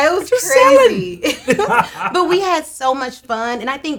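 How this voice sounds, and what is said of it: Usual voice. Nothing is said of it.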